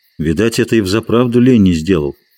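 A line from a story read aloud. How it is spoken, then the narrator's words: Plain. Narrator (Russian): сказал он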